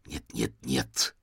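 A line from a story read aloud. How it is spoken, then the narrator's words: Hiss. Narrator (Russian): зашипел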